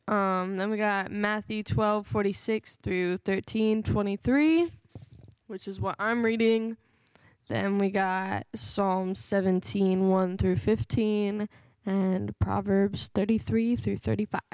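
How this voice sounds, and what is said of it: Cracking voice. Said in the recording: “My voice is cracking.”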